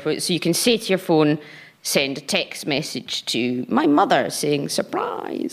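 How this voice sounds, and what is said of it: Scottish accent. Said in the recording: “it does not work with the Scottish accent ... people sometimes don't understand my accent.”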